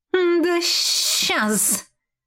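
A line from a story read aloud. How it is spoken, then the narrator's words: Hissed. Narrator (Russian): прошипела сестра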